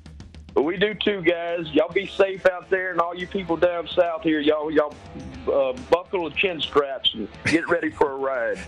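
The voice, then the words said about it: Southern US accent. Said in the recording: “The accents. Yeah. The accent's going to be perfect fit”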